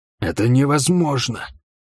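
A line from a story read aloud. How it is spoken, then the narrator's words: Whisper. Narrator (Russian): прошептал Грай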